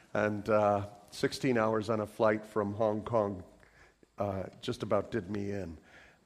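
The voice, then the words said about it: Congested voice from a cold. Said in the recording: “my voice is under the influence of a cold.”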